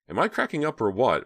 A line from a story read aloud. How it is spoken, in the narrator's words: Myra asked, surprised that her voice was trembling